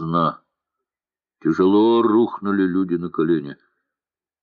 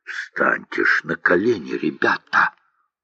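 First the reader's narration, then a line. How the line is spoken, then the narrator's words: Angry whisper. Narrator (Russian): сердито прошептал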